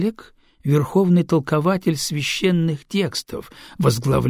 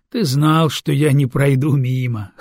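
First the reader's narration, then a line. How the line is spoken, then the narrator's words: Wry grunt. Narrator (Russian): хмыкнул Адиген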